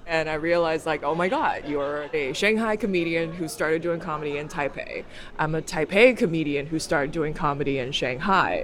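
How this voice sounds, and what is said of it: American-sounding accent. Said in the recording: “totally sounds American”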